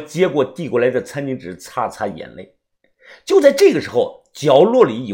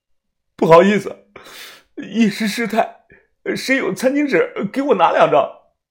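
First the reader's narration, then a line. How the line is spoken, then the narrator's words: Choked, tearful. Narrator (Chinese): 我哽咽的说道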